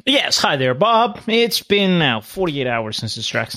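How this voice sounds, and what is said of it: Mock white news reporter voice. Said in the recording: “I had to use my reporter voice ... my impression of Dave Chappelle impersonating a white reporter”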